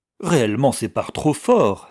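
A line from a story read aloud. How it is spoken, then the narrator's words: Exclaimed. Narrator (French): s'écria le banquier en entendant sonner les 15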